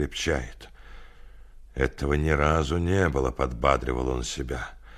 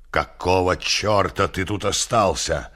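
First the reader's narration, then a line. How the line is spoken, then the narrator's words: Barked. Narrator (Russian): рявкнул Орвилл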